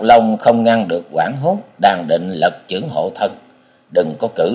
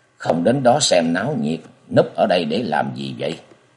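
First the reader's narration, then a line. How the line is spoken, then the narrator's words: Soft voice near ear. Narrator (Vietnamese): bên tai vang lên tiếng nói nhỏ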